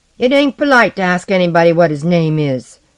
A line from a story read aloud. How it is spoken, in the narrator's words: shouted a fat, quick boy